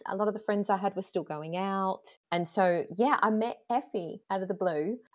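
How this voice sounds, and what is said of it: Australian accent. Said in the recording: “as your listeners will know by my accent, I'm not actually Scottish. I moved over to Scotland from Australia”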